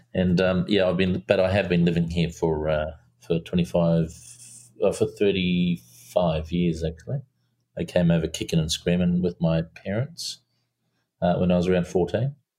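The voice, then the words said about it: Slight New Zealand accent. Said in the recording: “a little bit of Kiwi accent”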